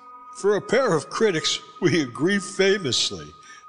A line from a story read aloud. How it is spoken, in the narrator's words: I laughed